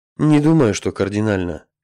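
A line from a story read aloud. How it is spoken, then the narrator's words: Humanlike sigh, virtual scientist. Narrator (Russian): совсем по-человечески вздохнул виртуальный ученый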